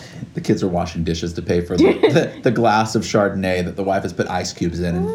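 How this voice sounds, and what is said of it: Usual voice. Nothing is said of it.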